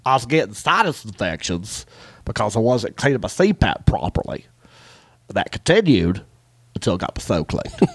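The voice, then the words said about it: Imitated Eastern Kentucky accent. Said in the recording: “that Eastern Kentucky accent. And this dude's accent, I could tell, was authentic ... the guy's accent, I'm going to try and do it right now ... This is how he sounds.”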